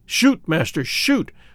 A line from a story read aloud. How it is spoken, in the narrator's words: whispered the Hottentot